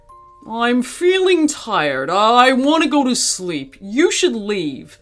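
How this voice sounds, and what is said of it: Dismissive voice. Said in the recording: “said the gorilla in a dismissing voice”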